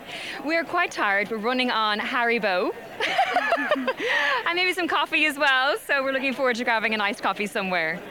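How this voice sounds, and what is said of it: Warm Irish accent. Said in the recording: “I love the Irish accent. There's something so warm and cosy about it.”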